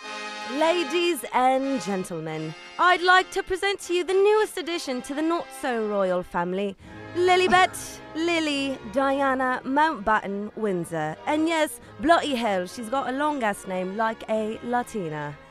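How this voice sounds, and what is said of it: Put-on British accent. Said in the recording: “Can you please present the new baby in your British accent? ... te sale bien perrón”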